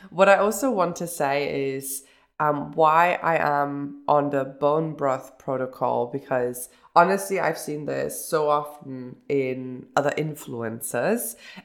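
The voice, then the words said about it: Nasal, congested voice. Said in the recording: “you hear that my voice is very nasal”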